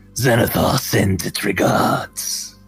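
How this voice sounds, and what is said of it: Very deep voice, orcish accent. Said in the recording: “with a really deep voice with an orcish accent”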